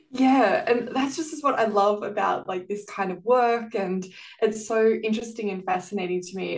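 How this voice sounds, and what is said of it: Australian accent. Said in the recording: “your accent that you are from Australia”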